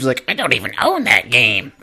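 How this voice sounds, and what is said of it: Imitates another person's voice. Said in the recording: “That's my impression of Beav... That actually did sound like Beav.”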